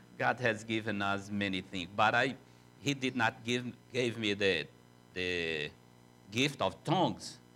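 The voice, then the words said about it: Strong non-native English accent. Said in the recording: “he don't know what is terrible accent”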